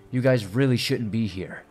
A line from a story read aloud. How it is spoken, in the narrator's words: he said again